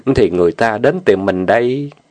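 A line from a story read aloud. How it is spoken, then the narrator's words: Trembling with desire. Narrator (Vietnamese): giọng chàng run rẩy khát vọng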